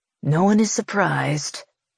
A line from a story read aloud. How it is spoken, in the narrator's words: Tramie mutters under his breath